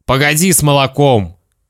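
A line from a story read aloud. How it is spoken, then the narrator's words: Stern father. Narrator (Russian): строго сказал папа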